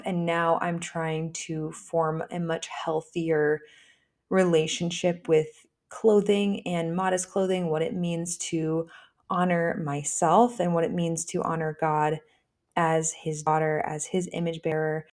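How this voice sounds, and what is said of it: Scratchy voice from a head cold. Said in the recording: “I am still getting over a fairly terrible sinus infection and head cold ... my voice sounds a little bit scratchy ... I'm not trying to do like the Gen Z vocal fry”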